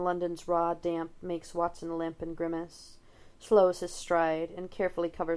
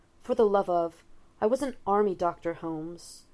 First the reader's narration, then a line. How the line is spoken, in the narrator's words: he blurts out